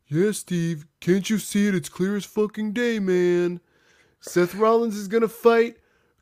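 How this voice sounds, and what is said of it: Imitates another person's voice. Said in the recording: “this is my Jeff impression”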